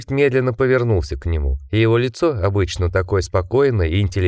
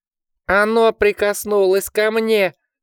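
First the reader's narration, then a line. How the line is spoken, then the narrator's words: Piercing shriek. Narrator (Russian): пронзительно взвизгнул он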